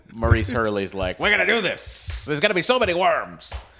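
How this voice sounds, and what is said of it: Imitates another person's voice. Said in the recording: “my Maurice Hurley impression... Not too bad, not too shabby.”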